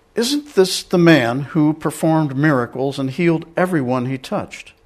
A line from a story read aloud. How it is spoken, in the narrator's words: suggestive seeds of doubt were whispered